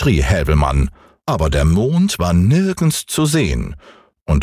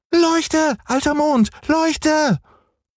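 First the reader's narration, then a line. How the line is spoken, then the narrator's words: Called out. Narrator (German): rief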